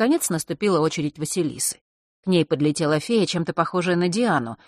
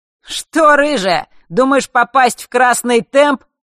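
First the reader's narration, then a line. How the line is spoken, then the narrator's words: Cheerful shout. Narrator (Russian): весело выкрикнул Марк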